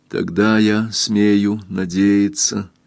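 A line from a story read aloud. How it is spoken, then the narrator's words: Timid, shy speech. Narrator (Russian): сказала Кристин робко и застенчиво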